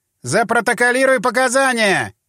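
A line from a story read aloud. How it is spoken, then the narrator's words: Shout. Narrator (Russian): крикнул Могилевский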